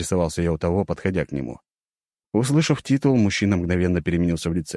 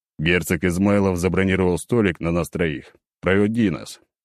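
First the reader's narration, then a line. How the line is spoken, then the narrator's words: Stern command. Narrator (Russian): строго приказал я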